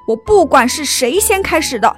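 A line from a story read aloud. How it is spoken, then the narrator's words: Teacher shouting. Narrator (Chinese): 老师大吼道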